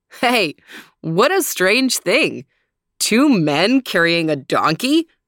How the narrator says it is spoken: They burst into laughter and said

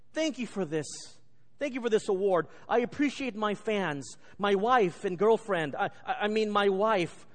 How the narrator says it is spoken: he suddenly blurted out

